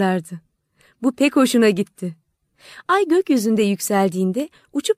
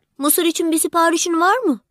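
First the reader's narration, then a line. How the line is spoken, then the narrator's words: Shouted. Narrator (Turkish): diye bağırdı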